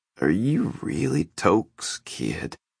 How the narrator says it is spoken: said, his words slurred and dripping with contempt

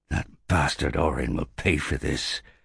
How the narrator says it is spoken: said Elikas bitterly

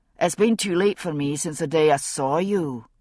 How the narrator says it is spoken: he said gruffly

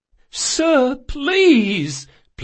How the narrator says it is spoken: pleaded the captain

